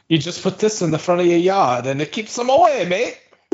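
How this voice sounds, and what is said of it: Bad put-on Australian accent. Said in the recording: “That's the worst Australian accent I've ever heard. ... It was okay at first, and I don't know what happened. ... It was like Jamaica or something.”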